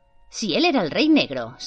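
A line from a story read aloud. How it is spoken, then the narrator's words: Hissed. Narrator (Spanish): siseó Lily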